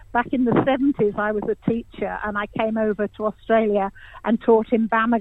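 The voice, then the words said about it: English accent. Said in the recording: “You can probably hear my accent. I'm English”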